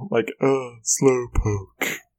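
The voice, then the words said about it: Yawning Slowpoke impression. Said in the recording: “That's a pretty good slowpoke impression. ... You just have to sound like you're yawning.”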